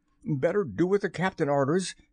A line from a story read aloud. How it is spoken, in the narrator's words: said Starkey nervously